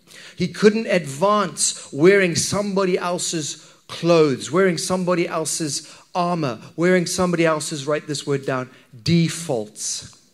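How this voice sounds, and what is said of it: Distinctive accent. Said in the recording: “my accent might be a little bit diff- different ... it's a great accent ... I only have one accent”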